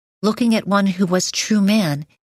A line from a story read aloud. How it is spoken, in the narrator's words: he cried out